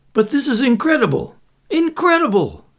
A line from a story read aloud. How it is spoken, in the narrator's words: sputtered